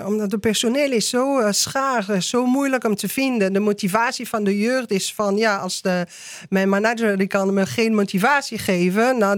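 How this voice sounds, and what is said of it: French accent speaking Dutch. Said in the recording (Dutch): “dat is mijn Franse accent”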